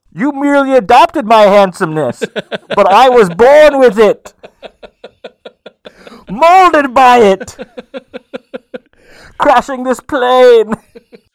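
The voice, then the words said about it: Bane character voice, highfalutin affectation. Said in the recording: “Should he have done that accent? ... Bane sort of has maybe an affectation. ... He's a kind of a highfalutin way of speaking.”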